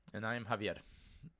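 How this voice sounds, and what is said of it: Says his name with an accent. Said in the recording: “Why do you have to say it with an accent?”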